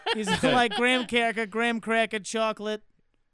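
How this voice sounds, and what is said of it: Put-on accent. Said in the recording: “I don't know why I did that accent.”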